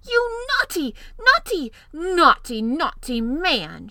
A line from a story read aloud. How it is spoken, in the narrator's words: she cried